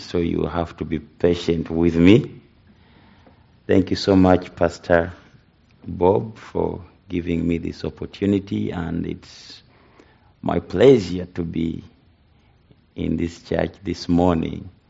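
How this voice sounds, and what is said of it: African accent. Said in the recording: “I know that you have a challenge with my accent. It's more of an African accent”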